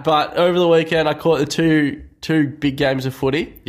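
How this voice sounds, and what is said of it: Sick-sounding voice. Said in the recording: “you may be able to hear in my voice that it's probably my Jordan flu game of podcast here”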